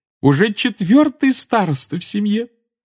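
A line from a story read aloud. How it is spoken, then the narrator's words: Exclaimed adoringly. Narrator (Russian): С обожанием воскликнула она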